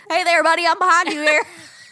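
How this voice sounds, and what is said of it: Put-on southern accent. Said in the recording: “What's that accent? ... It's like a southern accent.”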